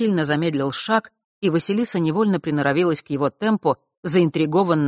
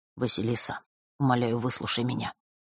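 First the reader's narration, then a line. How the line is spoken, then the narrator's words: Quiet plea. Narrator (Russian): тихо произнес друг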